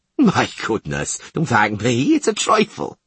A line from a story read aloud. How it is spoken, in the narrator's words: laughed the merchant